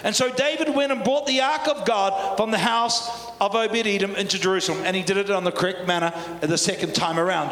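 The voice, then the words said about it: New Zealand accent. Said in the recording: “Can you understand my Kiwi accent?”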